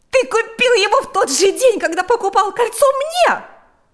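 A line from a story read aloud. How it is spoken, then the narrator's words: Shouting. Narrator (Russian): закричала Марьяна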